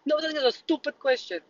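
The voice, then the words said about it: Italian accent. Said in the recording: “My Italian accent comes out. I'm not even Italian.”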